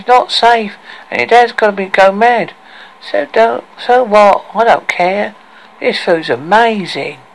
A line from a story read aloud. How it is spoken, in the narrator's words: said Aria in a whining, nasal voice